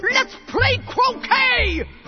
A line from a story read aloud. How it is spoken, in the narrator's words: All of a sudden, he took out his paraphernalia and shouted